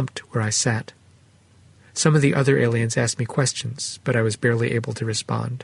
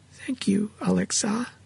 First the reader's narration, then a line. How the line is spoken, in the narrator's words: sighed